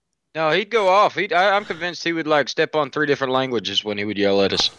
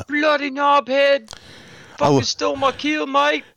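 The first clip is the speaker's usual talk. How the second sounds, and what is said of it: Put-on English accent. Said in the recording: “in his English accent ... That's Australian, I don't think.”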